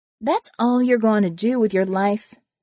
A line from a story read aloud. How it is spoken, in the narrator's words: asked Constance